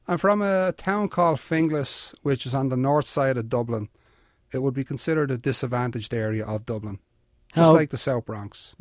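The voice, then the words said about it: Irish accent. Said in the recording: “you did not pick up the Bronx accent. You did not lose the Irish accent. ... I'm Irish, and I kept my accent”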